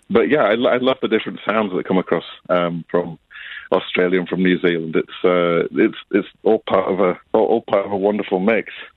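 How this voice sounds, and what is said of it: Northern English accent, flat vowels. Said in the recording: “you can probably tell from my accent, I'm not a Sydney local. I grew up in the north of England, so my vowels are flat ... I seem to have picked up absolutely zero of an Australian accent”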